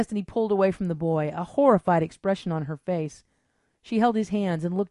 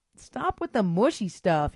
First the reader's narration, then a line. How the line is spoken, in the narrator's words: he cried, squirming in her arms to escape